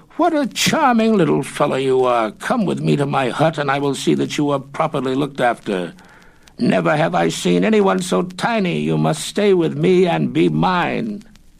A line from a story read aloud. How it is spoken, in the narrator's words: exclaimed